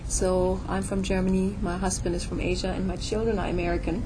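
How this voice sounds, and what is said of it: German accent. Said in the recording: “I'm from Germany, so that's where the funny accent comes from”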